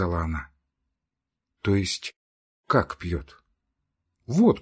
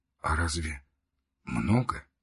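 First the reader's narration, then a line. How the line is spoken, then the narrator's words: Whispered. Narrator (Russian): прошептал Левин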